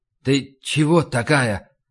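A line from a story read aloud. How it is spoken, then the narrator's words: Whispered question. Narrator (Russian): шепотом спросил я ее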